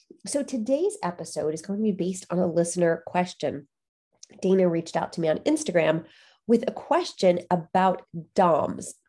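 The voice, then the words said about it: Congested, nasal voice. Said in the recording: “Bit of a cold today. I'm sorry if I sound really nasally.”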